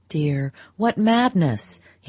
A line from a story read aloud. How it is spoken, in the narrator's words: he recovered himself to exclaim